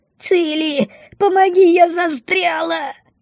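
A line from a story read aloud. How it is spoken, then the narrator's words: Loud frightened wail. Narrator (Russian): Во весь голос взвыла бумба, испуганно задергавшись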